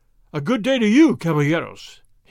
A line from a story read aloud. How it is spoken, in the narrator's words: he cried